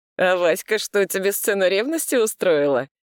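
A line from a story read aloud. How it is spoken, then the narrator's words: Restrained laughing speech. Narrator (Russian): сдержанно засмеялся Вадим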